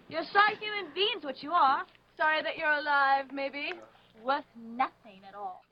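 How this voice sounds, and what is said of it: Put-on British accent. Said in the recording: “your British accent”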